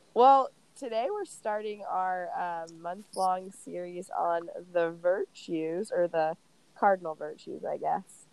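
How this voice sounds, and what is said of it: Stuffed-up, congested voice. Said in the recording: “If I sound a little bit like a man ... You sound stuffed up a little bit, but not manly.”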